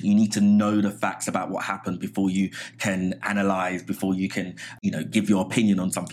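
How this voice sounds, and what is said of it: Not a New York accent. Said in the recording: “you don't strike me as someone that's got a New York accent”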